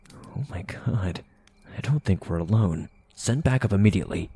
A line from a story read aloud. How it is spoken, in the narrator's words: the officer whispered into the mic